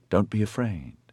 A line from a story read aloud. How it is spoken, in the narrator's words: Lycan said softly